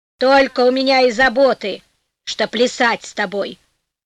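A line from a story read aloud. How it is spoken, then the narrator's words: Angry old woman. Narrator (Russian): сердито ответила старуха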